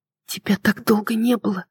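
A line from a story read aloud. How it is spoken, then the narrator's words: Whispered. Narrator (Russian): прошептала я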